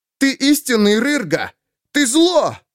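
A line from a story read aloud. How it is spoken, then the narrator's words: Shout. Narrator (Russian): Выкрикнув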